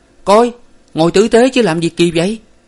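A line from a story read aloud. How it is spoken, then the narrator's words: Startled cry. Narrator (Vietnamese): khiến cho Hải phải kêu lên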